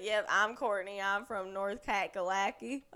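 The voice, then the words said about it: Put-on American country accent. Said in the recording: “I started choosing a country accent”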